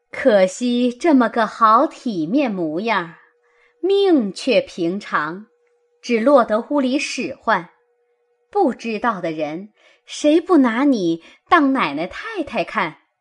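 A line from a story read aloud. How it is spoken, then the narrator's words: Laughing. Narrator (Chinese): 李纨笑道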